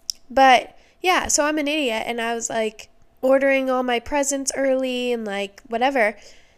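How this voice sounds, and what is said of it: Voice still rough after illness. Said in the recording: “I was sick-ish, I guess, last week ... My voice is still just recovering.”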